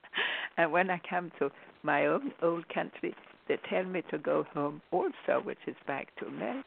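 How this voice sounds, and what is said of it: Swedish accent in English. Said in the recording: “I speak with an accent in America ... Sweden is also my country”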